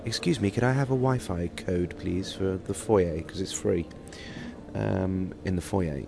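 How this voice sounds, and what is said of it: Put-on British accent. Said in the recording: “in my best British accent”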